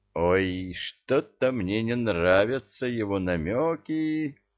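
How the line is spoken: Drawl. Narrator (Russian): протянул Молотков

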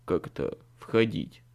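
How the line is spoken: Skeptical snort. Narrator (Russian): скептически хмыкнул Билли

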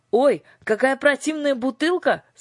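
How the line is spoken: Shouted. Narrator (Russian): закричал он

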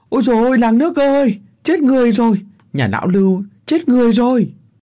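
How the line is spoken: Frantic yelling while running. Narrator (Vietnamese): hắn điên cuồng cắm đầu chạy bán sống bán chết, mồm thì gào lên

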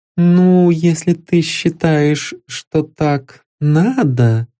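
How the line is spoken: Hesitant, uncertain. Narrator (Russian): Вероника Альбертовна неуверенно вымолвила

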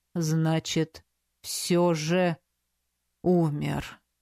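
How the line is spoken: Drawling. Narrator (Russian): протянул Готтер

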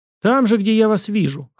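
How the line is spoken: Snort. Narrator (Russian): хмыкнул Иванов

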